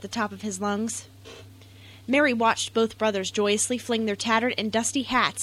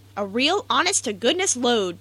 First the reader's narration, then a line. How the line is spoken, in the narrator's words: exclaimed